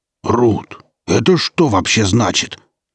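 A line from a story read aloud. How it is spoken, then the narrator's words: Strained anguished growl. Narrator (Russian): Пес зарычал с надрывом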